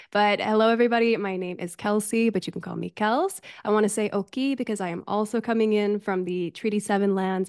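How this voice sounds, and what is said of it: Voice affected by a cold. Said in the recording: “you can probably hear, I'm coming off the tail end of a cold. So if my voice isn't 100%, that's why.”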